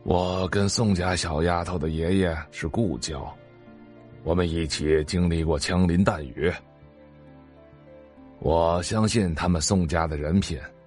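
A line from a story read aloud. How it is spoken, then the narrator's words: Old man sighing. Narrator (Chinese): 玉老爷子叹了口气，又道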